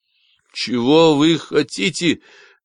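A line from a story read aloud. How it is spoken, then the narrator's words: Strained, forced out. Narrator (Russian): выдавил Марк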